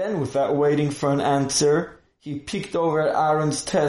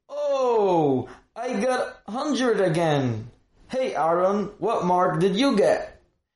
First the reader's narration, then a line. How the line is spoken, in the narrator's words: the Rebbe called out for everyone to hear